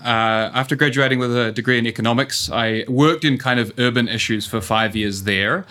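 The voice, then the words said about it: New Zealand accent. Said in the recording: “as you can tell from the accent, um, I'm a New Zealander.”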